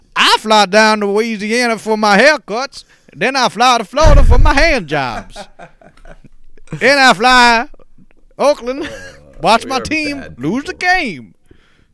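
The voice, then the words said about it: Put-on thick Louisiana accent. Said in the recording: “a Michael Scott impersonation of like a Louisiana accent”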